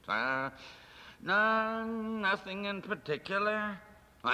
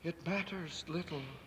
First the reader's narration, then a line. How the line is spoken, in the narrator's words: she said softly